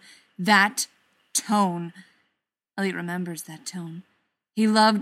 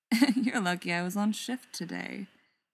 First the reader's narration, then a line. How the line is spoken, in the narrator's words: purrs